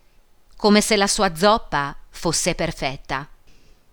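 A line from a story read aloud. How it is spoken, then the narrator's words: Spiteful voice. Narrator (Italian): Angiolina disse con voce cattiva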